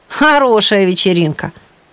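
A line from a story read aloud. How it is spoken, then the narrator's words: Snorting. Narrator (Russian): хмыкнул Стас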